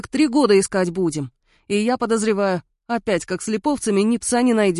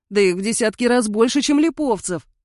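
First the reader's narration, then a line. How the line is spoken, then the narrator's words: Groaning. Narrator (Russian): простонал Дитрих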